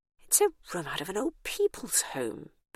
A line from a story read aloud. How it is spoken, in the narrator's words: Bernice muttered to herself with some horror